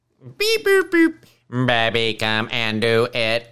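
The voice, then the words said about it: Robotic Stephen Hawking impression. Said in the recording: “I do a Stephen Hawking impression”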